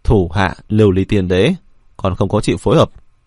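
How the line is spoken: Cold. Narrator (Vietnamese): Đồng Hoàng Thái Nhất lạnh lùng nói

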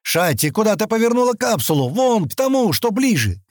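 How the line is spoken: Shout. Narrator (Russian): крикнул

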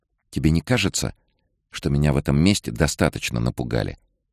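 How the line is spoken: Calm question. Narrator (Russian): спокойно спросила Кэт

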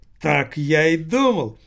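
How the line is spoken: Joyful proclamation. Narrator (Russian): радостно провозгласил сынок Лассале

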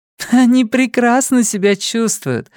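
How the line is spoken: Laughing woman answering. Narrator (Russian): смеясь ответила Сюзанна

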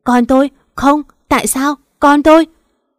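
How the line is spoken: Wailing, tear-soaked. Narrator (Vietnamese): Cái Hiền mỏ me ướt đẫm gào lên

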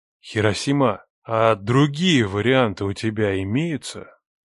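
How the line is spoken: Insinuating question. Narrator (Russian): Вкрадчиво уточнил Леха

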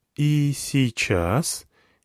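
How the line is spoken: Playful but muffled. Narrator (Russian): Ее голова скрылась внутри, и голос звучит задорно, но глухо

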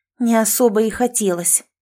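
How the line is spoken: Through gritted teeth. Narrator (Russian): сквозь зубы процедила

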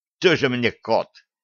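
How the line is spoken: Snort. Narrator (Russian): фыркнул один из лаборантов

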